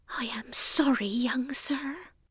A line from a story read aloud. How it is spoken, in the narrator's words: whispered Nanny